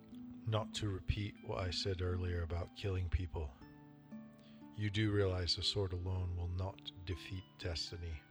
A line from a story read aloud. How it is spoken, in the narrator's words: he said quietly